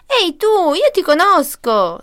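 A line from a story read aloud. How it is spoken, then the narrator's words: Shrieking little girl. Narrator (Italian): strillò la bambina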